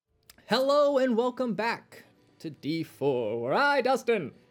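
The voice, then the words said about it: Old-timey radio announcer voice. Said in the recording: “Apparently I went to old-timey radio voice.”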